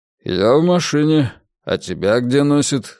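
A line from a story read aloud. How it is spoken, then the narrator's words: Dry reply. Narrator (Russian): сухо ответил Мунк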